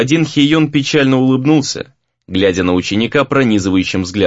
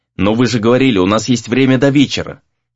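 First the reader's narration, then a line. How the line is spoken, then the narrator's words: Sharp objection. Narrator (Russian): возразил Рэй, быть может, излишне резко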